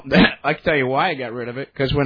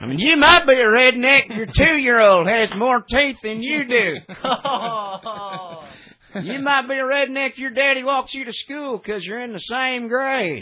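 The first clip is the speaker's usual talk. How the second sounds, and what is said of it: Put-on Southern Alabama accent. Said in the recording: “when I moved out from Alabama to California ... the accent's got to go ... Can you bring it back when you want to? ... Oh, sure.”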